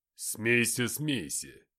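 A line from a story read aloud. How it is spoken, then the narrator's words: Grumble. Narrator (Russian): пробурчал Люцифер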